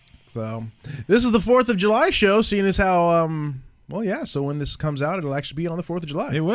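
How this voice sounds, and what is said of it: Usual voice. Nothing is said of it.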